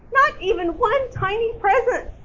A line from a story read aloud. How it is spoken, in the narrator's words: squeaked Mouse